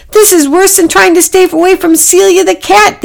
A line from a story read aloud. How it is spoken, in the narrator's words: they cried